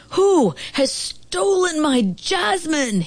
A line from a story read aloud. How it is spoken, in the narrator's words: he roared